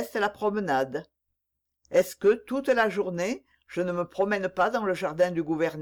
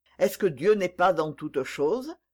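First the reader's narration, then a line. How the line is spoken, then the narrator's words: Reproachful murmur. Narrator (French): murmura-t-il d'un ton de reproche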